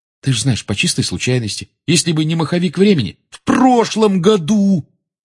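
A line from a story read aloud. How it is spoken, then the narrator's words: Nearly shouting. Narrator (Russian): Рон почти кричал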